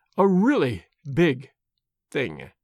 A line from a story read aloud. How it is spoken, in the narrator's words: she said slowly and very gravely